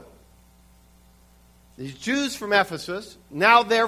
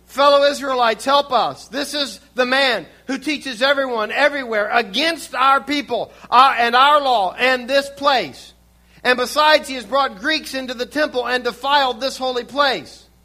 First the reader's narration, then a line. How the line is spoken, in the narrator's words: shouting